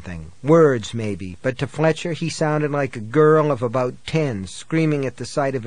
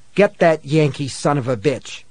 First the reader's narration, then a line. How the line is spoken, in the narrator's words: spat